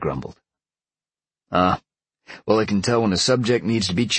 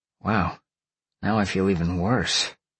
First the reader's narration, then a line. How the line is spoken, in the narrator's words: Sean sighed